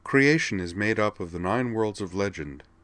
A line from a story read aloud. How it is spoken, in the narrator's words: she said in a businesslike tone